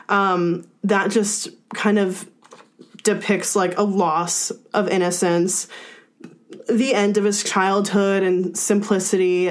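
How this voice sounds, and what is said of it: Emotional, choked-up voice. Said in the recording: “you can probably hear in my voice, it's kind of hard for me to talk about it because it's really powerful”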